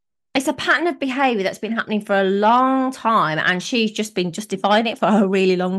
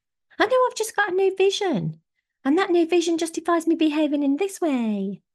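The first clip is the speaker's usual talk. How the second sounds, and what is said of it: Imitates another person's voice. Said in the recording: “I don't know why I did that voice. I don't think Nicola talks like that.”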